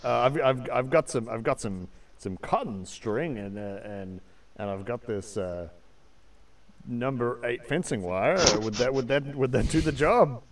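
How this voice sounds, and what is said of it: Put-on New Zealand accent. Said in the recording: “I thought I detected a Kiwi accent actually.”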